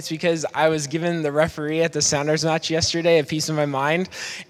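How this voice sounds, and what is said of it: Hoarse, strained voice. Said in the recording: “my voice is a little bit hoarse today ... I feel like I'm pushing out every single word”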